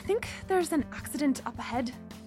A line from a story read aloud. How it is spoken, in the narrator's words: Gemma said, nervously